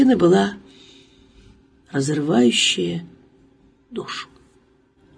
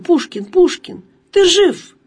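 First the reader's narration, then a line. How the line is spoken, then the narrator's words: Sobbing cry. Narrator (Russian): рыдая, вскрикивала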